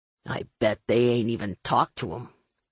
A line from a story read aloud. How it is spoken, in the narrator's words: Finn muttered